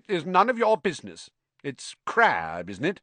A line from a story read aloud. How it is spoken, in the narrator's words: he said stiffly